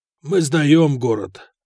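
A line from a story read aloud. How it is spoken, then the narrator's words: Hoarse. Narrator (Russian): хрипло ответил командир гарнизона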